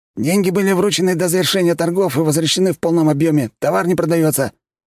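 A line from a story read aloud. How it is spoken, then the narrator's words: Nasty little voice, quick. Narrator (Russian): тут же отозвался мерзким голоском торгаш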